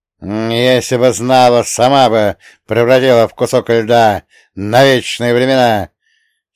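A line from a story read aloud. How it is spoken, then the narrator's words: Old woman almost growling. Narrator (Russian): Чуть не прорычала старуха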